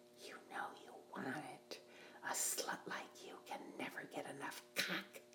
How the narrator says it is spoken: he whispered in my ear

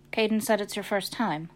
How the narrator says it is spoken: Tony said

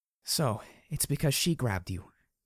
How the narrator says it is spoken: she murmured softly

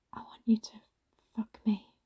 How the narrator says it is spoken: I whispered

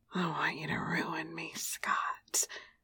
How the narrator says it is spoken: I whispered

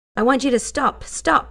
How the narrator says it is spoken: she shouted

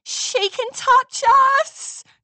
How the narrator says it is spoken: Scootaloo yelled

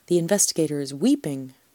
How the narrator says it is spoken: said triumphantly again

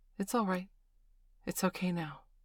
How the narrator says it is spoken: she said gently

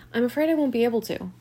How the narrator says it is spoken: I said

